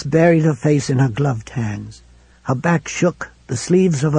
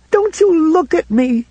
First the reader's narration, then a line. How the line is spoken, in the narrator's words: cried in that same wild voice